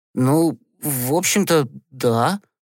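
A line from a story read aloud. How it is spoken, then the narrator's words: Uncertain mumble. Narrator (Russian): неуверенно пробормотал Гешка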